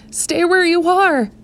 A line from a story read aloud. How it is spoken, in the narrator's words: tried to shout back